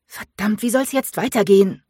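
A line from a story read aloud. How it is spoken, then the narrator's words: Snarling. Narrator (German): fauchte sie Keegan an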